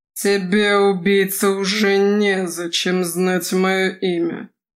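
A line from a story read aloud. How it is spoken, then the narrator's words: Forced through gritted teeth. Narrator (Russian): процедил сквозь зубы маг-страж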